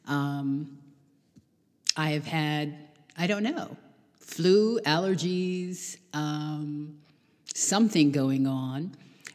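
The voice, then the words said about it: Slightly strained voice. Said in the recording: “you can probably hear from my voice that it is a little strained”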